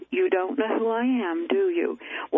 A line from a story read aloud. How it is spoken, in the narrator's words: he said to me, chuckling, he said